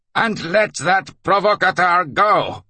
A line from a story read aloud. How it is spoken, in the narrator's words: he shouted at the end, as if he was repeating someone else's order under hypnosis